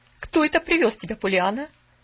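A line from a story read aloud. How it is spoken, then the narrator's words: Stern inquiry. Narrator (Russian): строго осведомилась мисс Харрингтон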